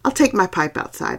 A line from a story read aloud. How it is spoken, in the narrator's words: I said